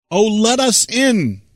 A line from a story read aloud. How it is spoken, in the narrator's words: poor birds cried